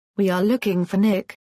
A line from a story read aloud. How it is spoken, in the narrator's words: Ali Mehmet stammered breathlessly